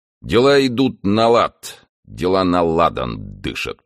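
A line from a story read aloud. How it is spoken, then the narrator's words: Grumbling mutter. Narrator (Russian): пробурчал он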